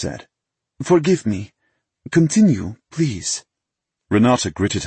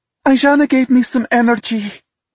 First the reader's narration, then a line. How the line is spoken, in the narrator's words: she blurted out